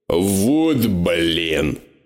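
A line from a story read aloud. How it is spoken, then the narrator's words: Grumbling. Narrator (Russian): проворчал я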